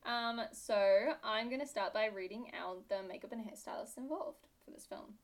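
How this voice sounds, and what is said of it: British accent. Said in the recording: “British accent ... I am British. It's actually a really bad accent. ... People just think I'm Australian ... why do you now sound Canadian?”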